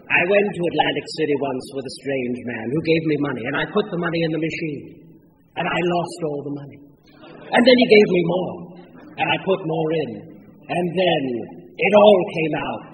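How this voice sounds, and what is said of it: Impression of Mr. Crisp. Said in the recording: “Pardon me if I'm not doing a good impression.”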